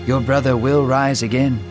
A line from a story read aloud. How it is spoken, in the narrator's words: Jesus said in a comforting tone